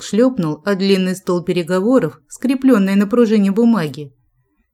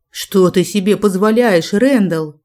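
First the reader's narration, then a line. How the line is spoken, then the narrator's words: Growled. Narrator (Russian): голосом рыкнул Дэвенпорт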